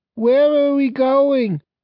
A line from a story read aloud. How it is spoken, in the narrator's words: said Dorothy, her voice drowsy